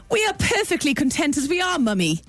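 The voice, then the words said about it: Put-on posh English accent. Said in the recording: “An English accent, a posh English accent.”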